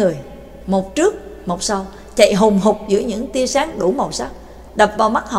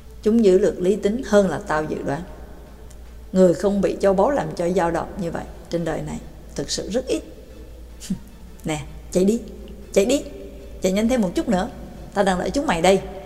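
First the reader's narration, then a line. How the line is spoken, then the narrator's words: Young man, soft. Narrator (Vietnamese): Người trẻ tuổi khẽ nói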